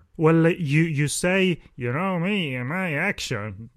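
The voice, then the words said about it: Impression of co-host's voice. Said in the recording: “That was my Phil. That was my Phil G impression.”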